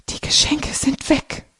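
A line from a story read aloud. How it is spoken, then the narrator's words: Whispered. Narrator (German): flüstert Carlotta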